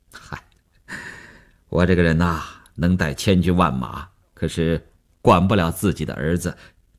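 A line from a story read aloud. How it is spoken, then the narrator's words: Wry, awkward self-mockery. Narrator (Chinese): 也笑了笑，几分安慰，几分尴尬，自嘲地说道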